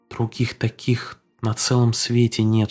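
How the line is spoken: Whispered. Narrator (Russian): шептала Фэй

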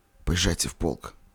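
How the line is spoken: Barely audible. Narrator (Russian): сказал едва слышно

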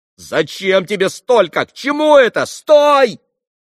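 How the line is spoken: Screaming. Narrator (Russian): завопил Петр Ильич

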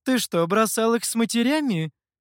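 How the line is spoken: Laughing. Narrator (Russian): засмеялась лиса

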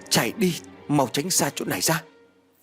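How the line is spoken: Sudden loud shout. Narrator (Vietnamese): phía bên thầy bỗng hét lớn

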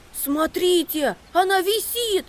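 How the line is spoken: Shout. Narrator (Russian): крикнул Макси

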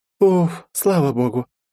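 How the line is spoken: Relieved exhale. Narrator (Russian): расслабленно выдохнула Лиза

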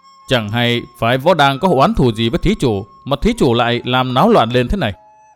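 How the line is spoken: Stern question after pause. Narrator (Vietnamese): Vân Trung Tử ngừng chốc lát, nghiêm giọng hỏi

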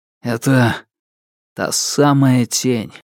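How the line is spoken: Muffled, hollow repetition. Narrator (Russian): повторил он глухо

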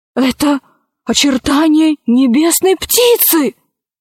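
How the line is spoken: Exclaiming. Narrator (Russian): воскликнул Орсекки

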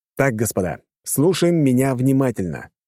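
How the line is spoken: Loud, magically amplified voice. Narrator (Russian): громко сказал я, усилив голос магии

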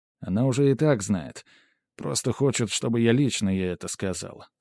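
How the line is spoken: Calm reply. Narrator (Russian): спокойно ответил я Сумире

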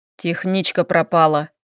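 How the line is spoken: Sharp, irritated. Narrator (Russian): резко выдал раздраженный Глеб

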